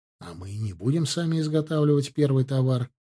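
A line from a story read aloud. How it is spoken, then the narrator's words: Calm. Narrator (Russian): спокойно ответил Ардан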